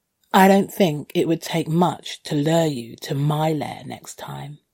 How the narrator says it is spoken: I purred

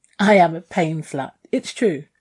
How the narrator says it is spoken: I giggled

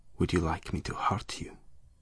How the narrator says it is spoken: he whispered

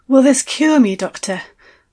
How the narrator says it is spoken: I asked, breathlessly

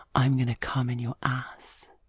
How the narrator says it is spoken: he whispers in my ear

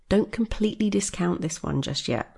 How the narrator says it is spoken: Rose said

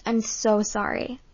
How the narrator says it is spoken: I stammered

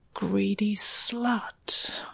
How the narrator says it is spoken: I hissed

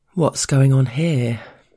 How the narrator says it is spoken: the boss drawls casually

